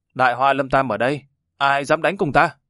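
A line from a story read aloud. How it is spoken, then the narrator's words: Piercing roaring shout. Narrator (Vietnamese): Người đại hoa mặt đen thân đen cất tiếng gào thét, thanh âm xuyên thấu sa mạc thảo nguyên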